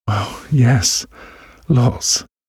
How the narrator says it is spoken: she gasped

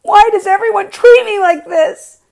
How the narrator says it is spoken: she cried out

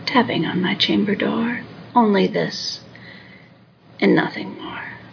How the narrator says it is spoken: muttered

